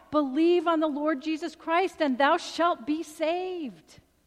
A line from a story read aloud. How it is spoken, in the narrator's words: again Harper cried out